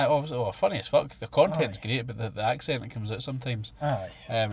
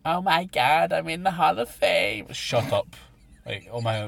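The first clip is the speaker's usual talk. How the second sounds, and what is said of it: Imitates another person's grating accent. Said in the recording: “That was the worst accent I've ever heard in my life. ... it grinds on you. That was a perfect impression ... They're like fucking Janice out of Friends.”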